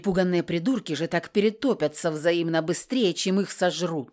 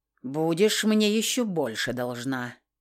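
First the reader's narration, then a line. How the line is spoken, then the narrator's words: Grumbled. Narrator (Russian): Буркнул он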